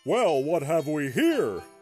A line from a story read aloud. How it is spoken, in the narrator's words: said in a booming, put-on Santa voice